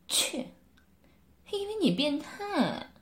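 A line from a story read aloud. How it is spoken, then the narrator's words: Light laugh. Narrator (Chinese): 柳丽艳轻笑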